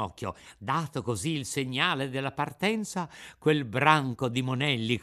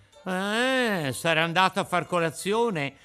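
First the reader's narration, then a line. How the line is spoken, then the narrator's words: Laughing reply. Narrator (Italian): rispose uno di loro ridendo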